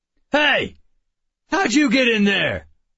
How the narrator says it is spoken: one shouted

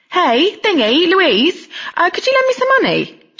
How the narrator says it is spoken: She called out

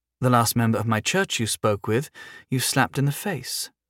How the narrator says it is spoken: she said, her voice tinged with amusement

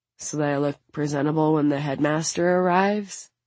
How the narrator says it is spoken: She sighs

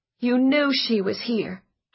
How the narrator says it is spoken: Josie said desperately

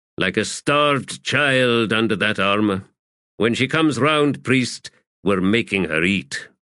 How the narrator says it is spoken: he growled

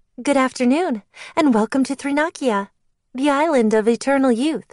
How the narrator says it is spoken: she said, her voice overly perky

